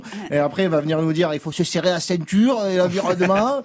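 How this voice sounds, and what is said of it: Put-on accent, fairly well done. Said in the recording (French): “Il est bien cet accent. ... Ouais, il est pas mal, je l'ai bossé.”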